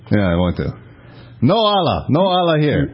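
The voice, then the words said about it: Poor put-on foreign accent. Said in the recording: “You don't need to do the accent. ... It's not good.”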